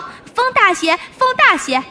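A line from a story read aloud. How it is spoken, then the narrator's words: Loud, impatient. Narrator (Chinese): 大官嫌船慢，在船头上大声说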